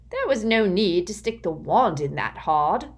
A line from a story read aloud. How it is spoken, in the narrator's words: he said gruffly